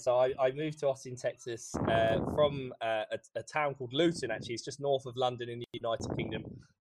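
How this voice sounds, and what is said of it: British accent. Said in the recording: “With your accent, I'm guessing you might not be from Texas”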